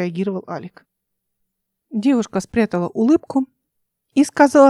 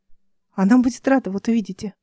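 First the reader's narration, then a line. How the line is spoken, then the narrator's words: Plain. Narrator (Russian): ответила девушка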